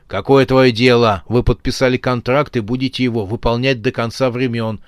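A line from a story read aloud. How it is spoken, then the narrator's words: Rude, gruff. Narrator (Russian): грубо сказал Рогатый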